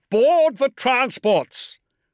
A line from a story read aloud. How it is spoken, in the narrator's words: shouted Zerberin